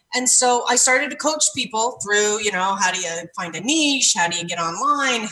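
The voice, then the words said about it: Canadian accent. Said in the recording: “I can hear ... The Canada accent.”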